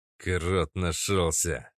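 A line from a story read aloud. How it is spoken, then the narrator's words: Through clenched teeth. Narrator (Russian): сквозь зубы сообщил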